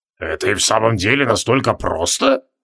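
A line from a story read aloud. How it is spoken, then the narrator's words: Doubtful mutter. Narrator (Russian): с явным сомнением пробормотал Тивилдорм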